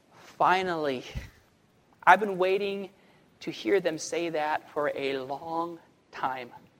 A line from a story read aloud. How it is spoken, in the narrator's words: take a deep breath and sigh and say